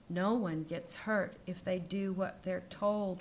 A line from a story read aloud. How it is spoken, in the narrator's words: whispered the white teacher through the door of the broom closet